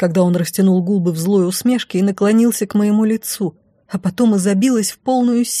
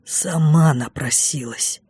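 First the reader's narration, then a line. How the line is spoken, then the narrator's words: Triumphant whisper. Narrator (Russian): торжествующе прошептал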